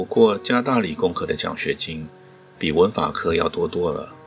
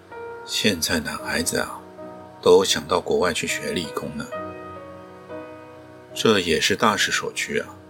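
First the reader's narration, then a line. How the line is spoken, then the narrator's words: Hushed, quiet. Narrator (Chinese): 于教授悄声说道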